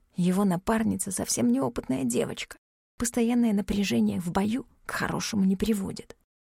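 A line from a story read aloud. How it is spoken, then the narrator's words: Whispered. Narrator (Russian): Ивар ответил шепотом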